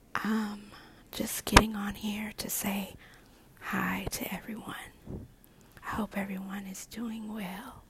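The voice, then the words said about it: Soft ASMR whisper. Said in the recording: “You may be wondering why I am whispering ... ASMR speaker”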